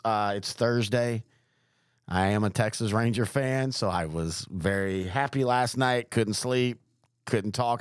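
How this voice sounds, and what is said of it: Hoarse voice. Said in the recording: “I do apologize for being hoarse ... I was really worried about 4 this morning if I was even going to be able to talk. That's how hoarse I am.”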